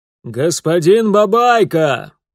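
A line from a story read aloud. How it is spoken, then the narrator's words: Father shouting through cupped hands. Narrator (Russian): складывая руки рупором, прокричал отец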